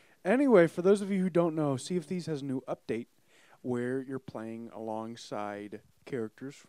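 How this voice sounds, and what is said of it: Usual voice. Nothing is said of it.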